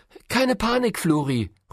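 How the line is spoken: Calling out. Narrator (German): ruft Caro

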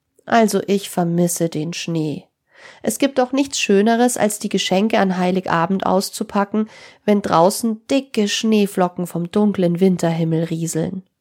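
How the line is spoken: Sad. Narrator (German): Sarah meinte traurig

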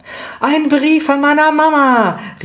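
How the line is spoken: Calling out. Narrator (German): rief Lydia

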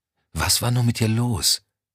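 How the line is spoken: Quiet voice. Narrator (German): wirkte leise

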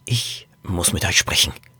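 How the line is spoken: Whisper. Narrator (German): flüsterte Norbert

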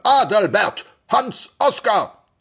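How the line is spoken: Booming male voice. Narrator (German): donnerte eine Männerstimme

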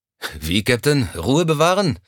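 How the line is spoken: Sighing. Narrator (German): Er seufzte

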